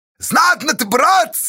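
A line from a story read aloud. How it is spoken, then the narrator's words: Crowd's weak admiring shouts. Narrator (Russian): Бессильно и восхищенно кричали в толпе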